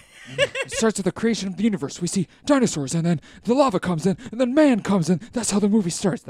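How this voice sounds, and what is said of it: Imitates another person's voice. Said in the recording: “my impression of Nick Cage in adaptation ... That's pretty good ... He just kind of sounds like a little guy”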